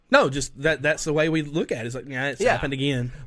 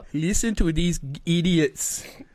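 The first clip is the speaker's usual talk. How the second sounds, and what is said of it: Put-on German accent. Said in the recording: “That is a great French accent. ... It's supposed to be German”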